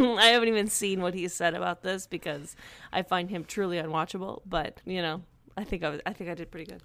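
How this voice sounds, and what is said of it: Usual voice. Nothing is said of it.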